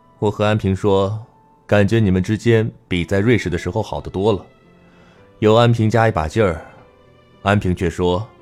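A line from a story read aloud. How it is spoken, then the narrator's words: Sighing. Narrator (Chinese): 陆泽磊叹息一声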